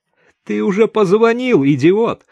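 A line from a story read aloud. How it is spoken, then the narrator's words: Laughing loudly. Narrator (Russian): захохотала Даша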